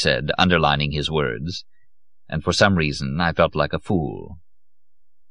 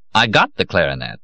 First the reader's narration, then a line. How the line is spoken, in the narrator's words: concluded sharply